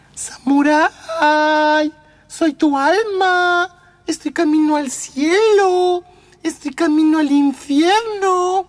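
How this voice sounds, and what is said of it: Little girl's voice. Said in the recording (Spanish): “voz de niña”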